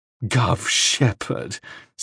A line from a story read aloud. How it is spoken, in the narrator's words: said Lydia Wells, and laughed gaily